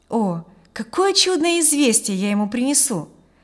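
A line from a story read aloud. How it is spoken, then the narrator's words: Delighted exclamation. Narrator (Russian): воскликнул он восторженно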